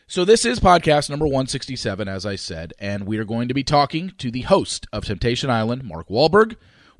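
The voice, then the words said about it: Deeper, congested voice. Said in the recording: “A little bit under the weather this week. My voice is a little bit deeper, a little congested”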